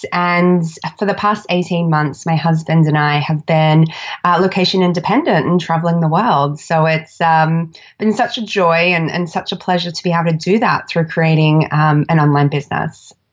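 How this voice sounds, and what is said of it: Australian accent. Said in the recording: “I'm Australian, if you can't tell by my accent.”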